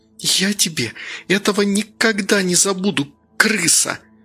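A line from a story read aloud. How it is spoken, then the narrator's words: Spiteful hiss. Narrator (Russian): прошипела Женя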